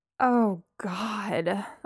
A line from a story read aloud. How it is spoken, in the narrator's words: I moaned